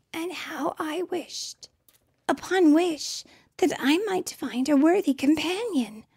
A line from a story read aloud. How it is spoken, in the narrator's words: she whispered to her horse